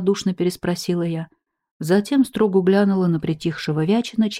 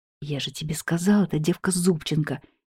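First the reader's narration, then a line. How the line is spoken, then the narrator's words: Quiet mutter. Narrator (Russian): негромко буркнул Вячин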